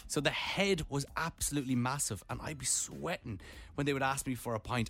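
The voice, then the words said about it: Irish accent. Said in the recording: “they would hear my accent and they would go, you from Ireland? I'd be like, yeah, I'm from Ireland.”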